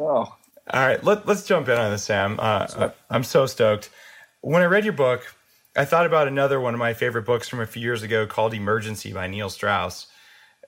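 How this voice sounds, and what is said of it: Slightly hoarse voice. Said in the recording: “So my voice is a little hoarse because I've been throwing up all night.”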